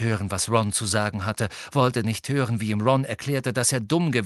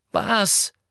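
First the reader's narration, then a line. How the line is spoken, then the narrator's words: Called out. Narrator (German): rief Ron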